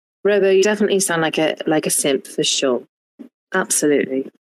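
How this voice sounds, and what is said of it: Put-on British accent. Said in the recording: “that's the best British accent that I can do.”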